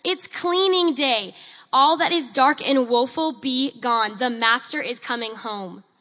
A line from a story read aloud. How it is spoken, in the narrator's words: shouting aloud for all to hear